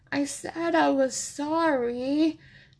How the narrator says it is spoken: Chase whines

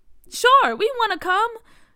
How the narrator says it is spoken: Bria said excitedly

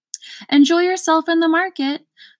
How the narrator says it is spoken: shouted the undersecretary

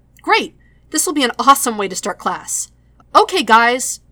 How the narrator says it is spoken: adds, raising his voice

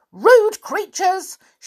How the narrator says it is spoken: shouted the angry little man who looked like a pixie

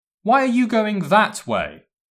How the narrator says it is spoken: shouted Malfoy

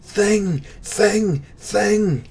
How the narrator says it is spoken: the mass screamed

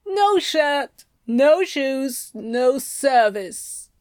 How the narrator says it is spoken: Huster drawls with a derogatory look at Crowley's sundress

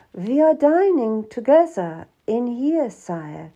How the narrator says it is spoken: said

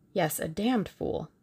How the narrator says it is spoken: he said softly

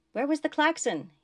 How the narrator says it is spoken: he shouted over the next barrage

